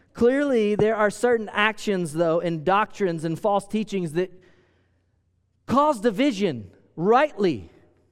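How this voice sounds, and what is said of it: American country accent. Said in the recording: “I feel like I'm saying squirrel. Is it my country accent?”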